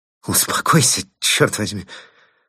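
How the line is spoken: Strained, forced out. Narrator (Russian): выдавил де Плезен

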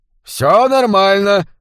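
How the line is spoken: Shouted. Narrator (Russian): прокричал губернатор Бенбридж

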